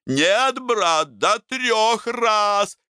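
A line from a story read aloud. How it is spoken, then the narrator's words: Shouting while struggling. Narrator (Russian): кричал Самойлов Тихоч, барахтаясь на земле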